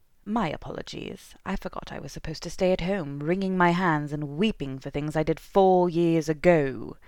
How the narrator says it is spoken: spat

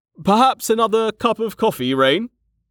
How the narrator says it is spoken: Mlem said, laughing

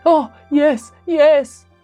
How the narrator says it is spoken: cried the Banksia man

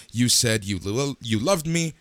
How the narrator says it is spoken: She yelled

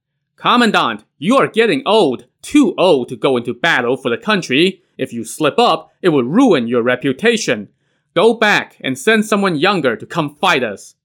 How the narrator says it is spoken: He shouted back to Wang Huan

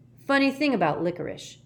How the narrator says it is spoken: said Jackson

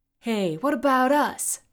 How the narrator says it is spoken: shouted Mectrix and Bruce

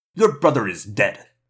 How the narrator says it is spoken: Eslin snapped

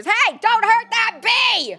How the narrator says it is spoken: the shouts of angry onlookers

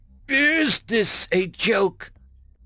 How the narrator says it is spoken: one of the gang members spluttered

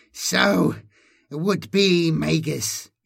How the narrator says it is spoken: she wheezed

